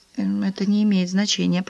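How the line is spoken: Whispered. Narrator (Russian): прошептала она

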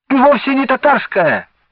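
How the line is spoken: Muffled shout under blanket. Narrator (Russian): закричал из-под одеяла Венька

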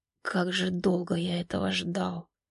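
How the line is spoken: Whisper. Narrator (Russian): шептали губы Сергея

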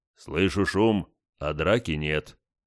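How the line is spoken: Deep bass voice. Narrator (Russian): пробасил гость

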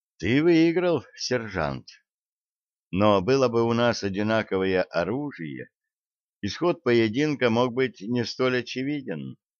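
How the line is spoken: Calm. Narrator (Russian): спокойно говорит она

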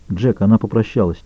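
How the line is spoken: Quiet. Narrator (Russian): тихо добавил Капком

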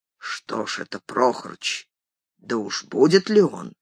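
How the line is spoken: Low voice. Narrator (Russian): сказал ему вполголоса

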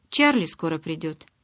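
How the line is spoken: Matter-of-fact tone. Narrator (Russian): будничным тоном сообщил Джейкоб

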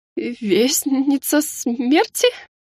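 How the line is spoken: Sudden stammering. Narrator (Russian): Внезапно начала заикаться скандалистка

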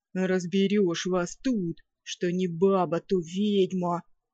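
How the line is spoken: Booming deep bass. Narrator (Russian): раскатистым басом прогудел леший

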